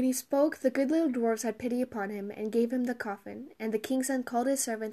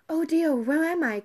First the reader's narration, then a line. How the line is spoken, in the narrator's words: cried she